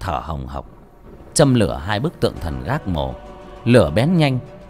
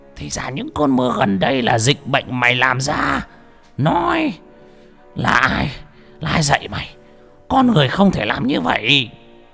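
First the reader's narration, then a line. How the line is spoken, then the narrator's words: Roaring. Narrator (Vietnamese): Lão Mò gầm lên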